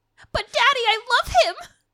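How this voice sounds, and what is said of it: Disney princess character voice. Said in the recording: “that was a really good accent.”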